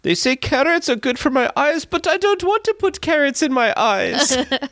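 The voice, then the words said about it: Deliberately bad German accent. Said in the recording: “you got me trying to do a really bad German accent ... Doing voice impressions here.”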